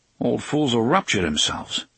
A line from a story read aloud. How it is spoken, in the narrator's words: Eddie muttered